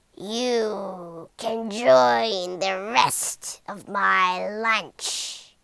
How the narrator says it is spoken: growled the monster

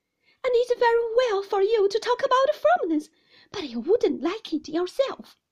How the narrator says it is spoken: cried my mother

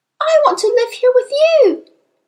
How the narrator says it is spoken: Matilda cried out

